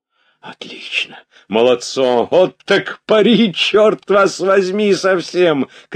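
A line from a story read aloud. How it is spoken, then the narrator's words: Shouts from many sides. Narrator (Russian): кричали с разных сторон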